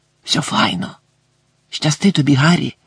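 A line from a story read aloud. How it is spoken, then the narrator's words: Whispered. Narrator (Ukrainian): прошепотів Гегрід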